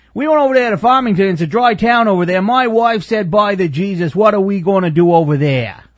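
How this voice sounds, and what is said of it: Imitated Maine accent. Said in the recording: “all of my impressions of the Maine accent”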